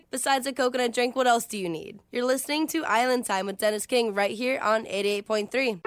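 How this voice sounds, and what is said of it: Soothing radio DJ voice. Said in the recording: “soothing DJ voice”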